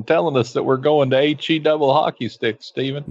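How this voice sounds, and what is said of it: Jerry Falwell impression. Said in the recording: “a man with big hair talking like this ... You're talking like Jerry Falwell. Oh, that's your Jerry Falwell impression.”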